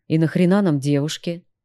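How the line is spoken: Melancholy sigh. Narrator (Russian): вздохнул меланхоличный гитарист

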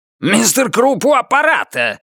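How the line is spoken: Bark. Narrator (Russian): рявкнул Круп

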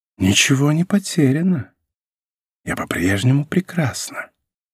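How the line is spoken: Self-satisfied whisper. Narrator (Russian): Довольная собой прошептала

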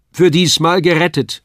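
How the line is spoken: Called out. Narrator (German): rief mein Vater

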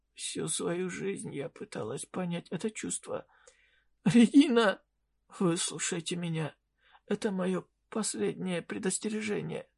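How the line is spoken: Weakening voice. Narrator (Russian): ослабевающим голосом добавила волшебница

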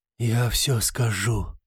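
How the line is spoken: Hoarse rasp. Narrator (Russian): прохрипел инквизитор

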